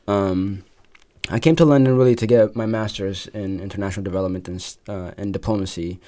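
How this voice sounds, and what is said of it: American accent. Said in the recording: “My accent is definitely American,”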